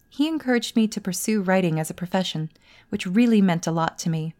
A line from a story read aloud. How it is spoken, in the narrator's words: Serena said